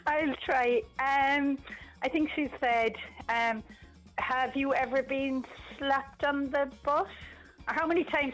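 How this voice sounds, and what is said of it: Distinctive regional accent. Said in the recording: “I love your accent. It's fab.”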